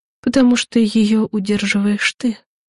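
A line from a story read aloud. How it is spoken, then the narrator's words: Quiet. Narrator (Russian): тихо сказала Яна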